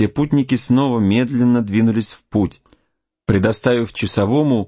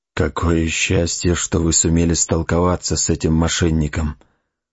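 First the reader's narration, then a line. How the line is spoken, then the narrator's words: Whisper. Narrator (Russian): прошептал разведчик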